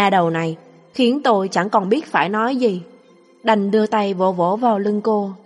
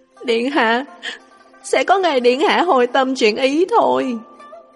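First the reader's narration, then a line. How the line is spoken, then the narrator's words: Choked with tears. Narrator (Vietnamese): Lục Ly vẫn nghẹn ngào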